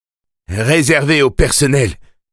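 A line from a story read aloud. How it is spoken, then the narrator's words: Shouted. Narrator (French): cria Eddie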